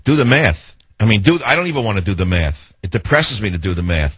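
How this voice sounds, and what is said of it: Strong New York accent. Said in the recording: “I have a bigger New York accent than she does ... it sounds like you live right next door ... he's too New York”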